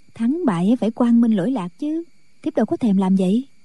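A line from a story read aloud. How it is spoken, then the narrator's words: Smiling woman. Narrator (Vietnamese): Thiếu phụ mỉm cười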